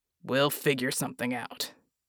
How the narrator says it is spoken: Jack growled

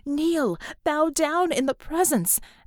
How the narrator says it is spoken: shrieked

